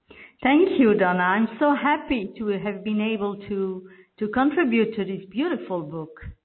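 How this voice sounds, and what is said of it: Belgian French accent in English. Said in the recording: “your accent, that you are not in the States ... I'm from Belgium, and I'm speaking French normally, so this is my second language”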